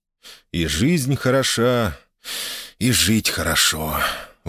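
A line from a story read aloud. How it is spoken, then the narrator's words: Exhaled words. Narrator (Russian): выдохнул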